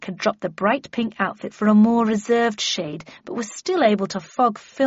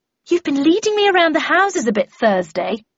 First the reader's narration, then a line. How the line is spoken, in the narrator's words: she said testily